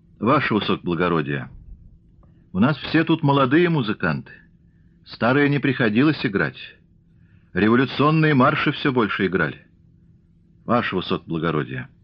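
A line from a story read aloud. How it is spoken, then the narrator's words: Quiet speech. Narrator (Russian): босой музыкант с тоскою негромко сказал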